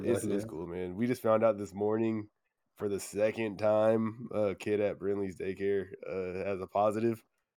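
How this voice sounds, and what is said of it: Voice sounds different from illness. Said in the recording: “I was sick this week. You probably remember my voice sounds different right now.”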